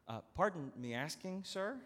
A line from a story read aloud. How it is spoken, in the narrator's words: began nervously